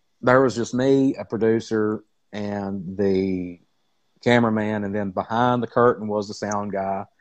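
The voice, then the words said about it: Southern US drawl. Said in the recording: “my southern drawl”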